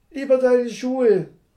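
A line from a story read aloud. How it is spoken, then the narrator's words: Squealing call. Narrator (German): rief sie quiekend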